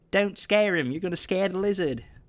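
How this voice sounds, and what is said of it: Terrible impression of Omega. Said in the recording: “I do a terrible Omega impression.”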